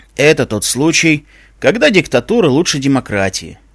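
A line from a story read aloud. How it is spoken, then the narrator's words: Skull's snorting smirk. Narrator (Russian): хмыкнул череп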